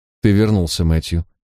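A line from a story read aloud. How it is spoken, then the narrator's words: Even tone. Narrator (Russian): ответила она ровным тоном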